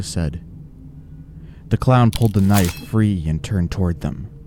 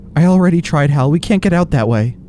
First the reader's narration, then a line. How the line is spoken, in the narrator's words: Lisa said in a frightened voice